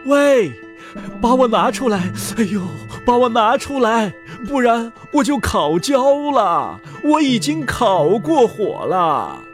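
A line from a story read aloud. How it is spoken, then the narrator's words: Calling out. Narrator (Chinese): 面包叫道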